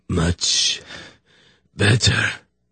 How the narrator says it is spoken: the dying man croaked

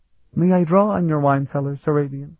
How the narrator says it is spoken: Elana asked sweetly

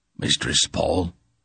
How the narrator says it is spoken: Durnick said in a voice that was scarcely more than a whisper

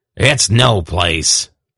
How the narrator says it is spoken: Belden growled

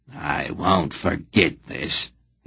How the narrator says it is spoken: he growled

